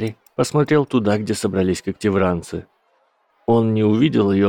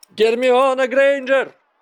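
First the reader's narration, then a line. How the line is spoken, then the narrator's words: Loud call. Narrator (Russian): громко позвал Гарри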